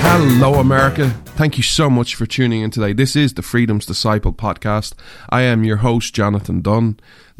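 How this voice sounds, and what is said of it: Irish accent. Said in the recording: “This Irish man stands with America ... where you come for the accent”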